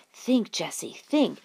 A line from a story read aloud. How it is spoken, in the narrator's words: she whispered to herself